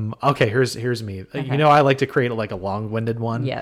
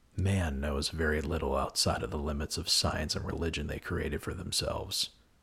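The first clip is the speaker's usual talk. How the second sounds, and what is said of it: Movie trailer narrator voice. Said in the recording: “do my trailer guy voice or my imitation of him”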